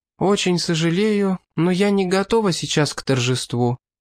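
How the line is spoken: Sad, smiling tone. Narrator (Russian): грустно улыбнулась Олис

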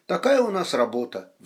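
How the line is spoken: Sighing. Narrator (Russian): вздохнул Гуров

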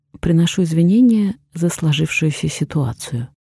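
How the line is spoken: Calm apologetic statement. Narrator (Russian): спокойно проговорила я, считая, что нужно быть умнее и уметь признавать свою вину даже перед такими неприятными типами, как он

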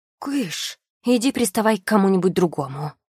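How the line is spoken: Loud hiss. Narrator (Russian): громко прошипела я

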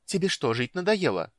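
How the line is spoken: Irritated. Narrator (Russian): раздраженно проговорила Иоланта

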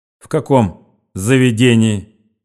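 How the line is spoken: Stern question. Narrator (Russian): строго спросил член в очках

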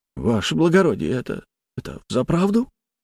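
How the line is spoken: Quiet question. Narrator (Russian): тихо спросил Молотов

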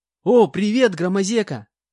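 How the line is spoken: Joyful loud greeting. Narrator (Russian): Радостно и громко поприветствовала она

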